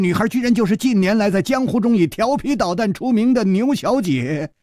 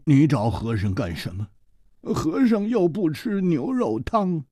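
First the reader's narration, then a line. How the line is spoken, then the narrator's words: Sighing, glum. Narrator (Chinese): 和尚叹了一口气，他苦着脸说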